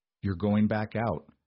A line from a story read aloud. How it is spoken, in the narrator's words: she asked, her voice raspy from the cold